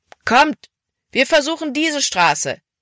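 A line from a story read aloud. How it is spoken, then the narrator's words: Calling out. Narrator (German): rief Caleb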